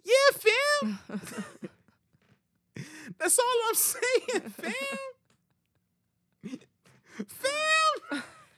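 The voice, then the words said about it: Imitates another person's voice. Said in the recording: “my Kanye impersonation”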